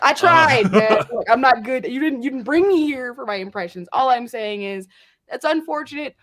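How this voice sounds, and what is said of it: Usual voice. Nothing is said of it.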